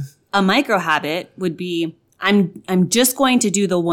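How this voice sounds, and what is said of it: Usual voice. Nothing is said of it.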